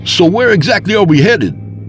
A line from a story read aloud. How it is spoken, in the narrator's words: I asked over the roar of the wind through the open window